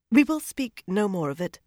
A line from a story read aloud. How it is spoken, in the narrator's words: she said stiffly